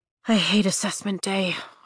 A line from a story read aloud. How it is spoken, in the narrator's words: I mutter